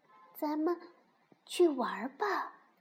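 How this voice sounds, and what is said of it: Very small, quiet voice. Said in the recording (Chinese): “用特别小的声音说”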